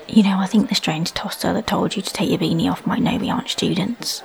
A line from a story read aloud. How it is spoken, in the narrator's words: whispered